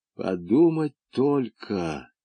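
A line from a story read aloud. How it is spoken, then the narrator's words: Muttered. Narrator (Russian): пробормотал Румата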